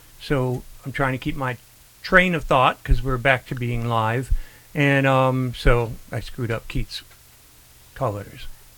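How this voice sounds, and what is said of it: Flat, strained voice. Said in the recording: “my voice is much more mono and all, it's because I had um, surgery a, a, little over a week ago, and uh, it still hurts quite a bit”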